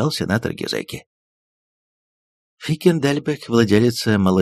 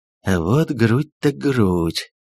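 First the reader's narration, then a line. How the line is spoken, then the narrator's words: Drawn-out drawl. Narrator (Russian): протянул он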